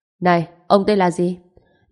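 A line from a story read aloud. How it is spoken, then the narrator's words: Cold question. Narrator (Vietnamese): vẻ mặt Trần Chiến lạnh lùng, hỏi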